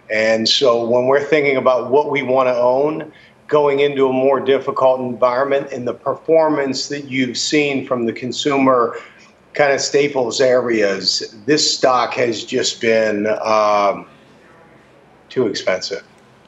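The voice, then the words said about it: Dejected, downcast voice near breaking. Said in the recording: “you sound like your dog died. Like like ... you're about to break down.”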